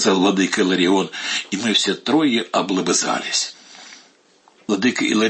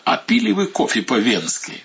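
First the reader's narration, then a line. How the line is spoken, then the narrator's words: Asked. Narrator (Russian): спросил меня владыка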